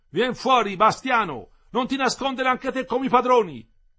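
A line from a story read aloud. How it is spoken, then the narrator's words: Shouted. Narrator (Italian): Aminta gridò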